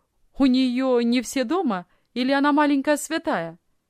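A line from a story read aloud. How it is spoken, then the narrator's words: Cheerful question, young man. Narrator (Russian): весело спросил молодой офицер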